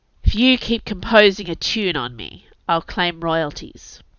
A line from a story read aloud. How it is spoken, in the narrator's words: grunted Jules Nightshade, his face buried in my sheets